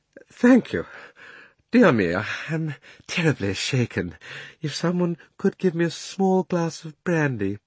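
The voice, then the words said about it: Faint, weak voice. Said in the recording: “said Uncle Andrew in a faint voice.”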